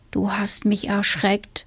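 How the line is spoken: Quiet. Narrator (German): sagte der Junge leise

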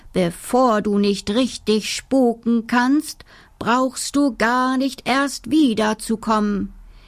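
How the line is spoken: Calling after someone. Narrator (German): rief der Direktor ihm noch hinterher

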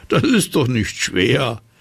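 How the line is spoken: Wizard laughing. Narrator (German): Der Zauberer lachte

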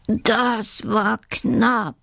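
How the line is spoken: Groaning. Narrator (German): stöhnt der freche Dachs

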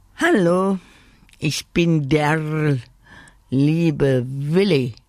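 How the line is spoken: Croaked. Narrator (German): krächzte

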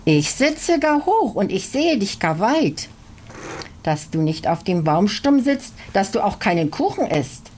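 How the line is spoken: Calls in tiny delicate voice. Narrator (German): Aber Marsha rief mit einem ganz zarten Stimmchen

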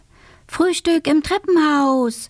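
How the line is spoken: Call. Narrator (German): ruft sie

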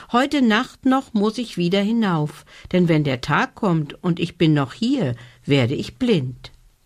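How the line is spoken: Small star calling out. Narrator (German): rief da der kleine Stern

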